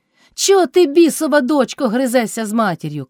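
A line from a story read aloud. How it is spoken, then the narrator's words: Old man shouting. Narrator (Ukrainian): крикнув старий Кайдаш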